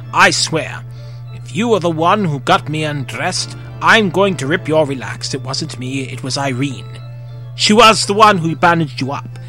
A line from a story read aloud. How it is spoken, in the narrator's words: said with a chuckle